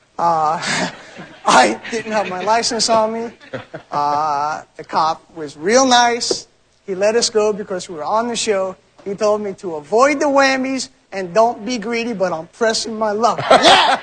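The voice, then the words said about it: New York accent. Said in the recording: “But a New York accent.”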